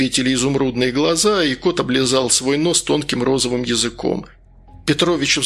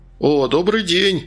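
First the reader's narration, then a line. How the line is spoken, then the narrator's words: Joyful. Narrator (Russian): радостно сказал Наумочкин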